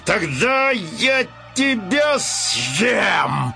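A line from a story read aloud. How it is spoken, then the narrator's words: Lion's growl. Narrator (Russian): зарычал лев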